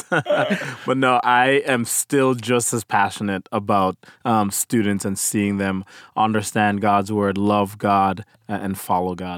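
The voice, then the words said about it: Slight Caribbean accent. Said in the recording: “you have a little bit of an accent ... I was born in Jamaica in the Caribbean ... my Caribbean accent”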